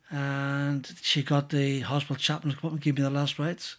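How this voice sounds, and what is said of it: Irish accent. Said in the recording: “my accent and my voice has changed ... It was actually from Northumberland before. He developed this Irish accent afterwards.”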